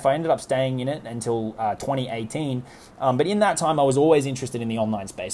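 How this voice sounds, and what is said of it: Australian accent. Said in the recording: “Australia, where I'm from, as you can probably tell from my accent”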